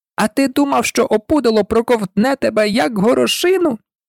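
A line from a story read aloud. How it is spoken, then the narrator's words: Squeak. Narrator (Ukrainian): запищала вона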